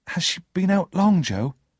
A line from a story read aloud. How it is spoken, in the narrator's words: I asked nervously